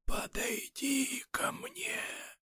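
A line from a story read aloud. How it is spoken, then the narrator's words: Old woman's whisper. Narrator (Russian): бабка запавшими губами прошептала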